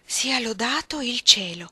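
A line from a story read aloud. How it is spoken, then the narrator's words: Exclaimed while laughing. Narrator (Italian): esclamò Orlando, che rideva ancora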